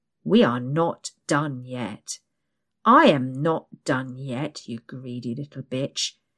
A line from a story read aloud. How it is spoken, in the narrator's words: snarls